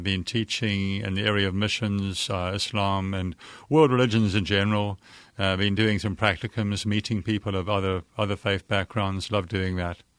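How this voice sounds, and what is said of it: South African accent. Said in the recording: “as soon as he says hello, you'll realize he's not from these parts ... my accent betrays me ... I'm from South Africa, and I'm not going to lose the accent anytime soon”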